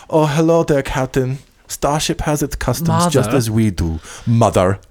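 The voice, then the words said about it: Imitated alien-accented character voice. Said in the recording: “Her little alien accent ... what accent is that”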